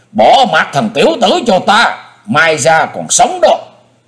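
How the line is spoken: Shrieking yell. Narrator (Vietnamese): Hải Ma giáo chủ thét vàng lên

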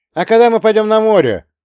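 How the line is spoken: Shout from back rows. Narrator (Russian): выкрикнул кто-то из дальних рядов

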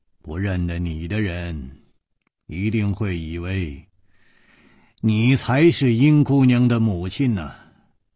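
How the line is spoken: Sighing. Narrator (Chinese): 楚留香叹了一口气说

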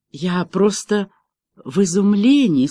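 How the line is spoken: Frightened whisper. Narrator (Russian): испуганно прошептала Меган

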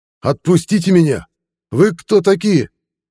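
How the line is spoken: Shouting at top of lungs. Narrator (Russian): Александр кричал во все горло

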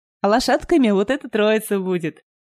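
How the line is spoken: Laughing. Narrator (Russian): рассмеялся дядя Яша

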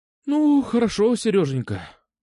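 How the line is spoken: Sighing. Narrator (Russian): вздохнула она

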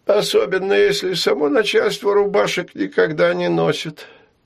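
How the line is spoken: Sad reply. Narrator (Russian): печально отозвался Дионисий Тигранович

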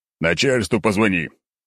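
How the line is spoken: Irritated growl. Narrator (Russian): рыкнул, потому что солдат откровенно тупил

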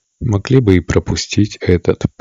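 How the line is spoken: Grumble. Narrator (Russian): проворчал капитан

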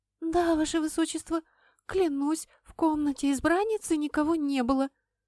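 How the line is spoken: Squeaked. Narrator (Russian): пискнула девушка

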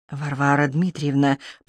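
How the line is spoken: Mutter. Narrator (Russian): пробормотал друг

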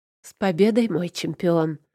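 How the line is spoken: Husky greeting. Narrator (Russian): хрипловатого приветствия

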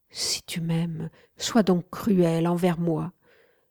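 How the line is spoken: Pleading. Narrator (French): implorai-je

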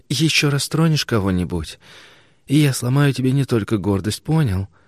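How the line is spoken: Hissed into ear. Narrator (Russian): Прошипела она ему в ухо

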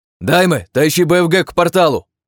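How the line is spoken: Young man shouting. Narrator (Russian): прокричал парень

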